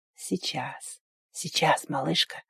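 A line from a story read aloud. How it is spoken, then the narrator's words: Whispering in ear. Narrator (Russian): зашептал ей в ухо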